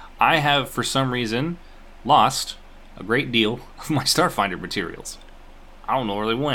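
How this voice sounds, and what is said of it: Usual voice. Nothing is said of it.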